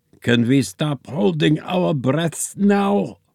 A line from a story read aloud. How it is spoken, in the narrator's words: wheezed Einstein